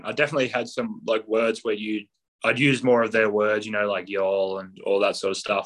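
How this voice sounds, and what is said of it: Australian accent. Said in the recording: “lose the Australian accent ... I didn't ever lose my accent.”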